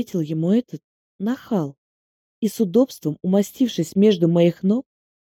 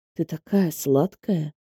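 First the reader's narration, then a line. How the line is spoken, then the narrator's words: Intimate whisper. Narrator (Russian): прошептал мне Алексей прямо в губы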